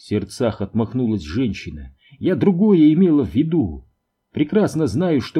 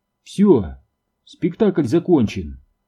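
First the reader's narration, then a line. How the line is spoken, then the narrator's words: Calm. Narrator (Russian): спокойно сказала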